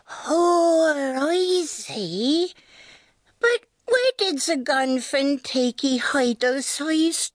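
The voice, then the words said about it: Curious mole-dialect character voice. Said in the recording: “Moles speak with a curious accent”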